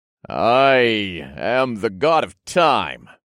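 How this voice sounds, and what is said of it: Grand, godly character voice. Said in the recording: “explained in my most godly voice.”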